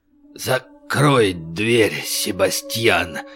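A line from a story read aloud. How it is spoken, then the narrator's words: Hoarse strained utterance. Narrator (Russian): сипло выдавил из себя Клод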